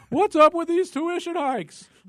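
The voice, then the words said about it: Imitates another person's voice. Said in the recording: “as Jerry Seinfeld impersonation”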